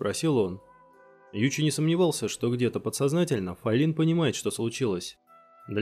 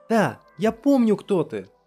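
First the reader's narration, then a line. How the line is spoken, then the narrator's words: Sudden shout. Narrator (Russian): Неожиданно закричала Файлин и сразу же замолчала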